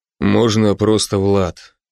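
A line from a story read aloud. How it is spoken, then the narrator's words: Quiet. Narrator (Russian): тихо ответил водитель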